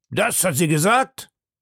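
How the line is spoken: Vehement call. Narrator (German): rief der Kardinal mit Heftigkeit

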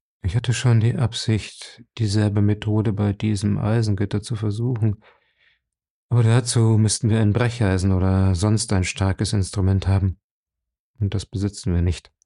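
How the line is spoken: Sad. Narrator (German): sagte Julius traurig

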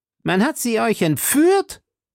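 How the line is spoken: Called out. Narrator (German): rief der Kommissar

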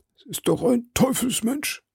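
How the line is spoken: Innkeeper muttering into beard. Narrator (German): murmelte der Wirt in den Bart

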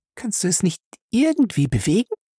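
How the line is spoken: Anxious question. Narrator (German): fragte ängstlich

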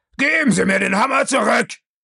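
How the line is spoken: Old man roaring. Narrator (German): brüllte der Alte

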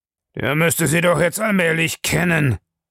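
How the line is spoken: Grumbled. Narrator (German): brummte Abel

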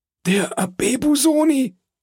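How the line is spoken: Called out. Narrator (German): rief Caderousse

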